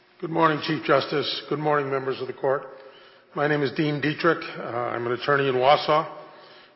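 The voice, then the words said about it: Voice sounds sick with a cold. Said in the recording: “I apologize for my voice. I have a cold.”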